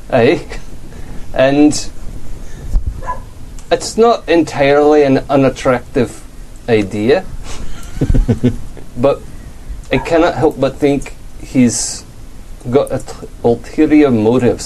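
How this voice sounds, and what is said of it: Put-on Scottish accent. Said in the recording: “that's fucking hard to say in a Scottish accent”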